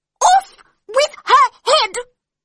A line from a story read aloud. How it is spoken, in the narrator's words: screamed the Queen